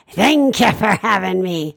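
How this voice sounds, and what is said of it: Comic monster character voice. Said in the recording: “It's Jimmy Durante, ladies and gentlemen, from the 1940s. ... that's the monster voice that I discovered”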